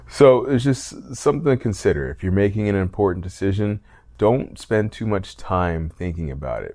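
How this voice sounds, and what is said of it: Tired-sounding voice. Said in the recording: “As you can probably tell in my voice, I'm a little tired.”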